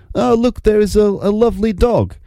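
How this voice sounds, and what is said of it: Poor mock Russian accent. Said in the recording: “They spoke in Russian, of course, rather than that ridiculous accent that I just did ... I don't think that that's a particularly good accent”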